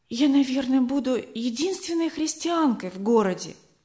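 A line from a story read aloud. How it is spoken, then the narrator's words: Sad quiet whisper. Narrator (Russian): Опечалившись, Шоу-сан тихо шепнула миссионерке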